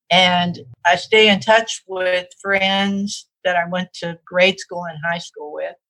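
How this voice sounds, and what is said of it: Southern American accent. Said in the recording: “You said you can still being a Southerner in your accent.”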